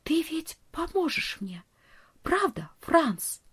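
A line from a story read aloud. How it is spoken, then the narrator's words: Whisper. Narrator (Russian): прошептала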